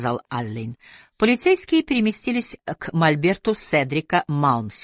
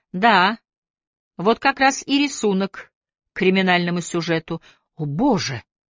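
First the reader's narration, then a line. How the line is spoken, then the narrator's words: Deeply shocked exclamation. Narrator (Russian): воскликнул пораженный до глубины души Фокс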